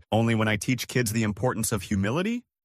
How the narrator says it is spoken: She laughed awkwardly

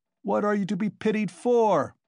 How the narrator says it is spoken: shouted the tavern-keeper

